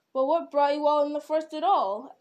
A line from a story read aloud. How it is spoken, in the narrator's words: asked the king angrily